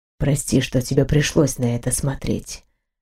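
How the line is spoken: Whisper. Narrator (Russian): прошептал он

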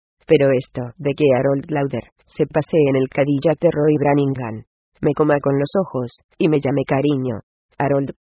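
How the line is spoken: Patient tone. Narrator (Spanish): dijo con tono paciente

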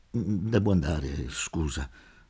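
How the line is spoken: Muttered. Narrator (Italian): borbottai

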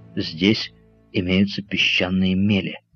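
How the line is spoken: Plain. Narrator (Russian): сказал он Остину

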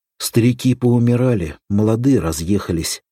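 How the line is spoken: Sighing. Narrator (Russian): вздохнул заместитель

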